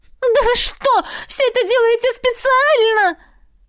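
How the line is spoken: Exasperated outcry. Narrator (Russian): в сердцах выкрикнула она

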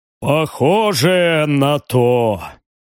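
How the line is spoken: Heavy sigh. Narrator (Russian): тяжело вздохнул барон

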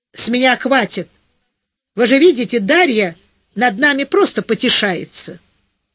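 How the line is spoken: Angry. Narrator (Russian): Зайка сердито произнесла

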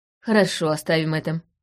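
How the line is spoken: Sighing. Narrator (Russian): вздохнула я

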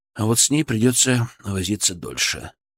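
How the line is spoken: Sighing. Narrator (Russian): вздохнул

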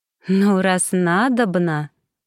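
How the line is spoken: Drawling. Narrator (Russian): протянула она

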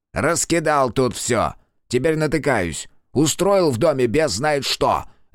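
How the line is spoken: Barking teacher. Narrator (Russian): рявкнул в ответ учитель

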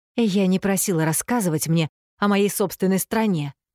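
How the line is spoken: Snapping. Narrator (Russian): огрызнулась Эффи

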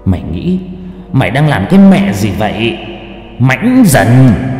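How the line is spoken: Hissed through teeth. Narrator (Vietnamese): Nó rít qua kẽ răng

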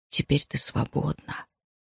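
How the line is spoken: Intrusive whisper. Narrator (Russian): навязчивый голос, шептавший ей в ухо

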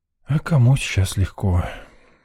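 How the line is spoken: Sighing in unison. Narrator (Russian): синхронно с подругой вздохнул я

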